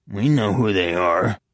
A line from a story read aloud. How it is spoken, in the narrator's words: the bearded man growled